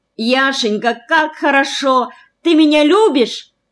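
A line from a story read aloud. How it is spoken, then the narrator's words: Ecstatic shout. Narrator (Russian): крикнула она в полном восторге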